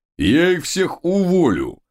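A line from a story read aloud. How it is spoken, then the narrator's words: Mighty growl. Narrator (Russian): прорычал могучий Тесноглидик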